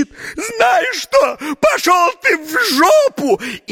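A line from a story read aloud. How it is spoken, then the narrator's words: Sudden shout. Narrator (Russian): Она как закричит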